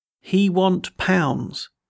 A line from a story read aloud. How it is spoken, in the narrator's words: one said very slowly